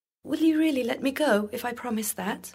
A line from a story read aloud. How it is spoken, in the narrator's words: cried the mermaid